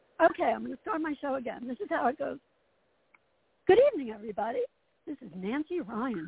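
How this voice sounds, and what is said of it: Hoarse voice. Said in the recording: “I'm a little hoarse tonight. That happens sometimes. I talk too much.”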